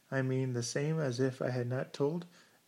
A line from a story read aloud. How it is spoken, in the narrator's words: He asked in a tone that quavered suspiciously